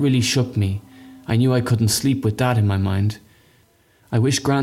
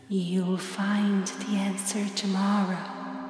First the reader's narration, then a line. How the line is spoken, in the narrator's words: It whispers